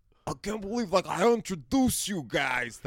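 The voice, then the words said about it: Poor impression of John Gabrus. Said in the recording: “my Gabrus impression ... That's not a good John Gabrus impression.”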